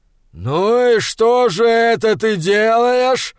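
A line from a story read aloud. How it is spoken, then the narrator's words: Growl into ear. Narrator (Russian): прорычал Фриавару ему в ухо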